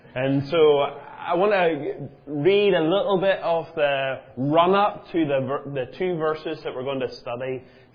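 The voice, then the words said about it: Prickly, not smooth accent. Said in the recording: “Mine's more prickly”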